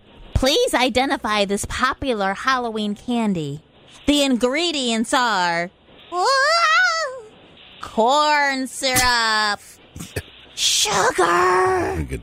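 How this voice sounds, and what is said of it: Spooky witch voice. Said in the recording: “my spooky witch voice”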